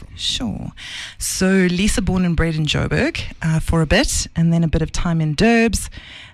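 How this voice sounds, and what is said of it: South African Natal English accent. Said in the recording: “You've still got, I get accused of it as well. You've got very much that Natal accent. ... Not like the Cape Town one. ... But similar. ... you've also got the English, your inflections.”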